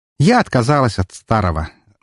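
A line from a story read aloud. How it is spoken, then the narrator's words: Declaring while laughing. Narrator (Russian): заявила Эльсийка, не прекращая смеяться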